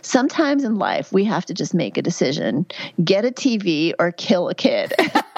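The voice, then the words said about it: Heavy Georgia Southern accent. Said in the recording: “She had this heavy Southern accent ... in this heavy Georgia accent”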